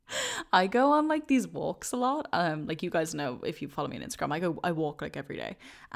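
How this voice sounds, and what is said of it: Deep, tired-sounding voice. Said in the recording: “I sounded so sad ... I think my voice is pretty deep today ... I think I'm a bit tired”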